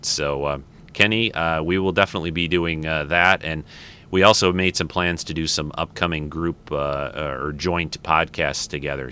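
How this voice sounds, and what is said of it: Slightly rough, dry voice. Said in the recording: “I feel like my voice is a little raggedy today ... it dries you out, kind of”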